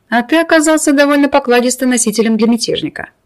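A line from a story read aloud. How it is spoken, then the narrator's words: Declared after laughing. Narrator (Russian): отсмеявшись, заявил Медина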